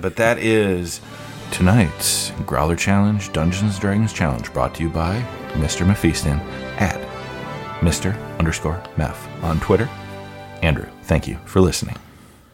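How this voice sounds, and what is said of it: Exaggerated smooth radio announcer voice. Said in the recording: “It's my fake radio voice ... This is the make love to you voice”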